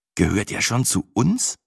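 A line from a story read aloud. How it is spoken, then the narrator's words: Slightly anxious. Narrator (German): fragte ich fast ein wenig ängstlich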